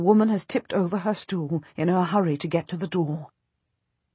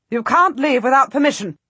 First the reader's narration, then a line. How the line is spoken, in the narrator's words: the Duchess says harshly